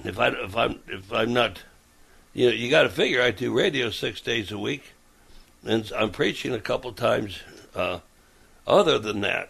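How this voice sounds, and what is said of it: Raspy, worn voice. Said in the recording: “I do have a cough ... as far as my raspy throat, that's due to a lot of preaching ... just a lot of wear and tear on the vocal cords”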